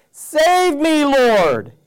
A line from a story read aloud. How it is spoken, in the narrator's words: shouted